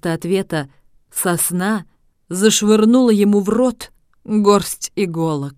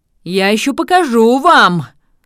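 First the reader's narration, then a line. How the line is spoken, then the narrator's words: Shouting again, barely able to speak. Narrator (Russian): Снова закричал он, как только смог произнести хоть слово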